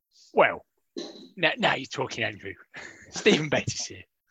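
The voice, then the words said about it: Imitates another person's voice. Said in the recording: “doing an impression”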